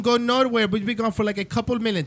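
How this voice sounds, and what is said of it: Put-on Cuban accent. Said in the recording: “That's my Cuban accent.”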